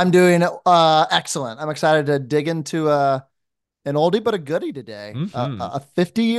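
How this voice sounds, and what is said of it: Usual voice. Nothing is said of it.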